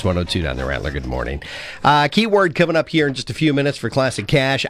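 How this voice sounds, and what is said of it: Sniffly, stuffed-up voice. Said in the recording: “Man, I'm sniffly this morning... You can kind of hear it in my voice.”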